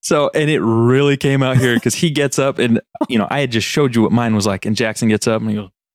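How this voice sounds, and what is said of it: Usual voice. Nothing is said of it.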